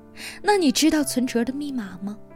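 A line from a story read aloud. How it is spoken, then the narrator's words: Wry, exasperated question. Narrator (Chinese): 我哭笑不得，问他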